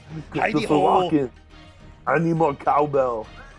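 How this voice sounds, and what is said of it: Bad impression with Schwarzenegger-like accent. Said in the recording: “I take my Arnold impression very seriously. I know it sucks ... every impersonation I do has a Schwarzenegger behind it.”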